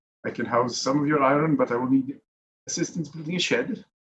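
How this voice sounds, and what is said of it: Put-on accent drifting Scottish to Eastern European. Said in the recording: “the accent drifts from like Scottish to just this like ... Eastern European ... very uh, uh, Irish uh, East Coast uh, dialect.”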